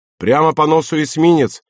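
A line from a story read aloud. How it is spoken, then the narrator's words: Shouting. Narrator (Russian): крикнул Баковый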